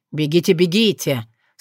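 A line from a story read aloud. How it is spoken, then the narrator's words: Muttered. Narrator (Russian): очень довольно, почти нежно, пробормотав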